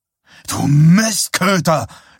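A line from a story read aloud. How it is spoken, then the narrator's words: Startled angry shout. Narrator (German): schrie Greg erschrocken und wütend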